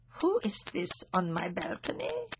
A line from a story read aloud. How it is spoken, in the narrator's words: she muttered